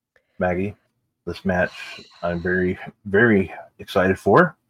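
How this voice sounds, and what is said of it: Hoarse voice. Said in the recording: “tell by my voice right now because it's kind of like hoarse.”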